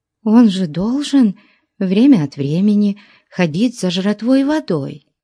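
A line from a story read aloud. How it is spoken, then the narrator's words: Uncertain. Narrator (Russian): сказала она неуверенно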